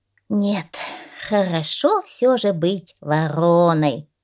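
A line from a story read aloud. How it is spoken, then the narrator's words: Relieved sigh. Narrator (Russian): облегченно вздохнула ворона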